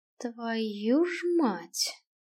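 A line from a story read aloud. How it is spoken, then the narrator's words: Breathed out. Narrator (Russian): выдохнул Киган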